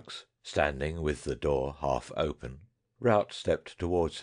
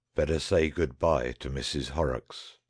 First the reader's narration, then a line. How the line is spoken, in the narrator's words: said the ironmaster, even more grimly quiet in his tone than before